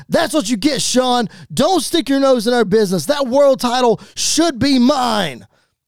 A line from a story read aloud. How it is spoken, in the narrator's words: is yelling out